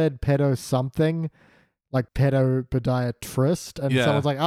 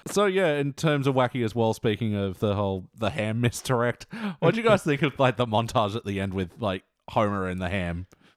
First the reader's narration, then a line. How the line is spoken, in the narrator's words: I chuckled